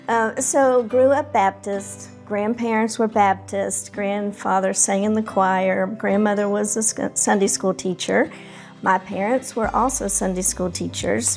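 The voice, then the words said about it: Strong Atlanta Southern American accent. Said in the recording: “I have always lived in Atlanta ... We would have never guessed by your accent ... I did go to Ireland and they were just fascinated. ... By my accent.”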